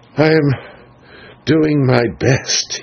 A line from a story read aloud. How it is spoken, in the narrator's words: he answered feebly